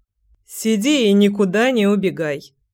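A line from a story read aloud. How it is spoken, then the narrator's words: Playful, winking. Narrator (Russian): подмигнул Семён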